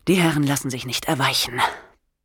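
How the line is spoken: Sighing. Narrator (German): seufzte er

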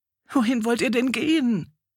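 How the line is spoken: Wailing. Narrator (German): jammerte die sonst so beherzte Janne

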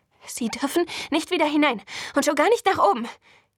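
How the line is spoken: Gasped while running. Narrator (German): japste ich im Vorbeirennen

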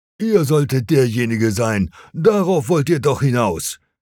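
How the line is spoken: Called out, jumping up. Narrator (German): rief Gnaeus Sentius Saturninus, der zweite Konsul

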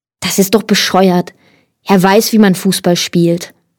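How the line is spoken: Plain. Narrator (German): sagte Michael

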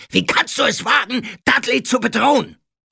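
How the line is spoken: Bellowing. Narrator (German): brüllte Onkel Vernon

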